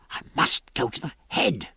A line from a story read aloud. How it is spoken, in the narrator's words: whispered Jack